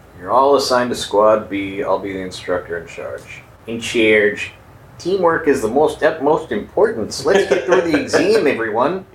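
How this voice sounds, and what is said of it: Weird Midwestern Fargo-type accent. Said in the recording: “It's like a weird Midwestern Fargo-type accent.”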